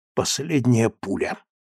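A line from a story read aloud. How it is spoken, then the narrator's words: Whisper. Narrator (Russian): прошептал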